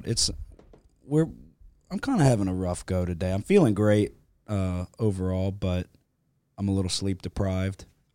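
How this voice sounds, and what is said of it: Strained, slightly off voice. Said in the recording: “My voice is struggling ... I almost yelled myself into a coma ... my voice sounds a little off”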